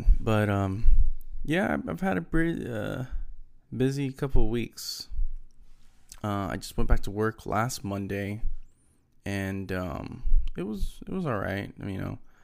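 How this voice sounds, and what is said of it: Slightly deeper, sick-sounding voice. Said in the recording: “my throat wasn't feeling good, and I had phlegm, and I sounded weird when I was talking ... my voice sounds a little bit deeper”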